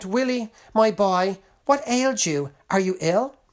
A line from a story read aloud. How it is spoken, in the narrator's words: His surprised mother exclaimed